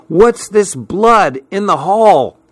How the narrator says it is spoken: Suddenly, I heard Betsy shout

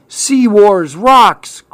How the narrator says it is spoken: cried Clark

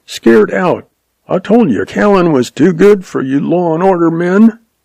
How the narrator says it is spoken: Jack yelped

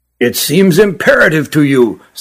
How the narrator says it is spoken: said Spekeren, his voice rising

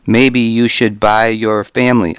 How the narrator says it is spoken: I said

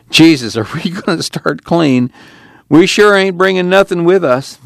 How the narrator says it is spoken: chuckled

